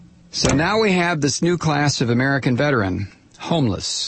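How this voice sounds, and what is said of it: Usual voice. Nothing is said of it.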